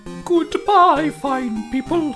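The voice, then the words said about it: Put-on medieval accent. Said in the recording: “do your best medieval accent ... cosplaying as Lady Guinevere”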